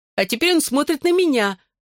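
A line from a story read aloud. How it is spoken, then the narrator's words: Shrieking. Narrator (Russian): взвизгнула Клэр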